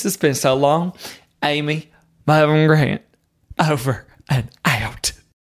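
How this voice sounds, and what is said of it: Choked-up, emotional voice. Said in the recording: “I'm getting choked up just saying this.”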